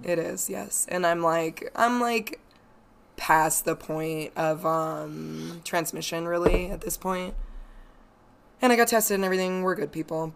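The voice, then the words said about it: Husky, low voice recovering from cold. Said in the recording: “My voice is slowly returning, but it's just going to be a little sultry, sexy episode this week ... It's just a cold ... I just sound kind of sexy”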